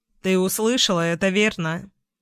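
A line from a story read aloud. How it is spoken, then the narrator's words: Plain question. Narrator (Russian): спросила Глэдис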